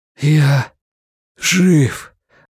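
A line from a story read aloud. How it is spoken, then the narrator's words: Breathless exhale. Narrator (Russian): выдохнул Стью Редман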